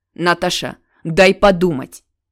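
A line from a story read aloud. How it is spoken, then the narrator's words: Sharp father's voice. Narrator (Russian): резко отец произносит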